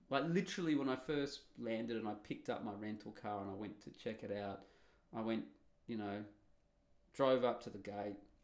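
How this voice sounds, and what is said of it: Australian accent. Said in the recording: “I'm Australian with an Australian accent”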